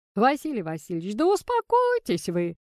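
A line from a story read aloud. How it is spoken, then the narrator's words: Old man laughing. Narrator (Russian): смеялся дедушка Афанасий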